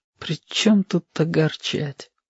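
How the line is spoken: Barely audible. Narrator (Russian): проговорил он еле слышно

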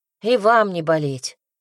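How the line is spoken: Grumbling. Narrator (Russian): буркнула я

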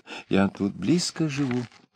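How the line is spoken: Pleading whisper. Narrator (Russian): звучал упрашивающий шепот

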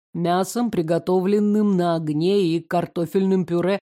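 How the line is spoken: Plain answer. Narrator (Russian): ответил Карен

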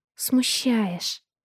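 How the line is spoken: Whispered. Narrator (Russian): шепнула она

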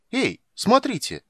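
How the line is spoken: Sudden exclamation. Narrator (Russian): вдруг воскликнул Лютик

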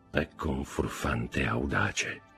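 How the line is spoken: Murmuring. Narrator (Italian): mormorò il conte

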